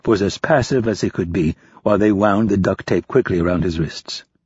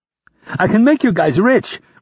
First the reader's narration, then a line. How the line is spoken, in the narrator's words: Rapp pleaded